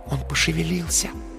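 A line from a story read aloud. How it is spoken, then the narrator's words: Soft whisper in ear. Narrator (Russian): тихо прошептала на ухо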